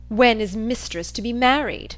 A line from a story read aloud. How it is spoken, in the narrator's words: said he, in a sneering tone